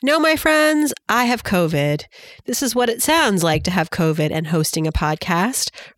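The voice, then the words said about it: Sick, congested voice. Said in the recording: “You might be able to tell from my voice, I'm not feeling so great ... chills and coughing and congestion”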